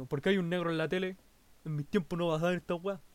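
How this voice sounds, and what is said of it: Old man's voice. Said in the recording (Spanish): “voz de viejo”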